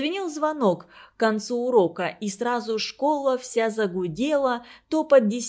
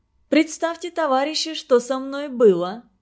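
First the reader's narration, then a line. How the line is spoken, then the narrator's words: Laughing speech. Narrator (Russian): смеясь, говорила она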